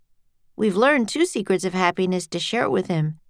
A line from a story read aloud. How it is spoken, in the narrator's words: said Jack